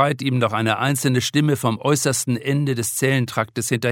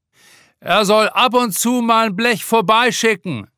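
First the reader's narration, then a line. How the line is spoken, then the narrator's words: Calling out. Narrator (German): ruft ein anderer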